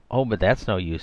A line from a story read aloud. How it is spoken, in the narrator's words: said Diana, in an undertone to Rosamund